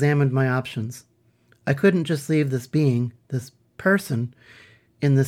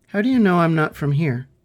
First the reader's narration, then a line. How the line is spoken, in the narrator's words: Coral squeaked and clicked